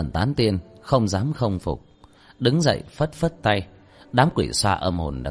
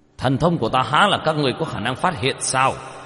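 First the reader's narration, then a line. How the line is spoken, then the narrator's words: Panicked covering shout. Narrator (Vietnamese): Thôi Phủ Quân trong lòng hoảng hốt, cũng không thể bại lộ, ngay sau đó quát lên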